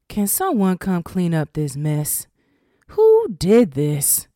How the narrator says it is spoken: Judge Brown said in a dull tone

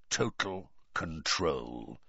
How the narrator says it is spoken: said Moody quietly

